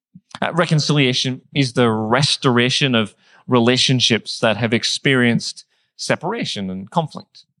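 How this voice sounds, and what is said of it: Northern Irish accent. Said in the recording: “I grew up in Northern Ireland. You might have picked that. I'm not from around here with my accent.”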